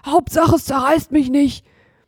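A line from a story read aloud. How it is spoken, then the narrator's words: Panting. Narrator (German): keuchte Hotzenplotz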